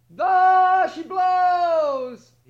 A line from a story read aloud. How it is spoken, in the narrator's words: he cried